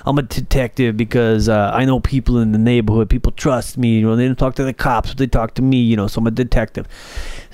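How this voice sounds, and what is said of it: Put-on Boston accent. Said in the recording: “they're from Boston, so they got the accents”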